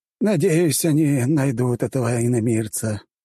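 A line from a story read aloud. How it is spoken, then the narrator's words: Pensive sigh. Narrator (Russian): вздохнул Владиар Хариус, задумчиво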